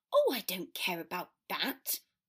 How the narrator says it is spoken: Granger said crossly

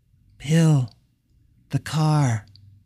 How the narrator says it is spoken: Keith said quietly

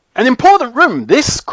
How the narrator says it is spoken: cried Mr

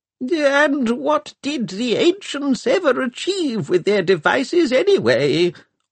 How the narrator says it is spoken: whined Arkengarth

